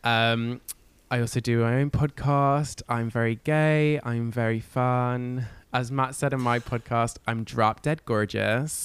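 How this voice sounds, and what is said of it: London accent with slight American twang. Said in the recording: “You sound different from us ... Sometimes they're the little American bits ... A little twang creeps in. Yeah, I'm from London ... I'm a UK hun.”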